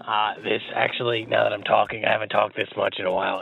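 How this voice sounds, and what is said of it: Hoarse, strained sick-sounding voice. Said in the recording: “it's the day that I talk like this... This is now just how I talk... It hurts phenomenally”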